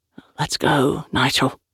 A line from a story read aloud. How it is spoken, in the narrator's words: the big one whispered, his voice urgent